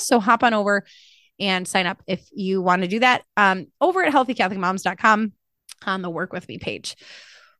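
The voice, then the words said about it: Fast, short of breath. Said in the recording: “I always get short of breath when I'm pregnant... I'm talking really fast... just took the wind out of my sails”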